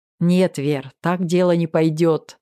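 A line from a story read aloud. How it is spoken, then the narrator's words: Laughing. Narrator (Russian): засмеялся Макс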